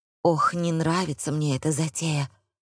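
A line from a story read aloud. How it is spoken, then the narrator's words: Whisper. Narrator (Russian): шепнул он Бетти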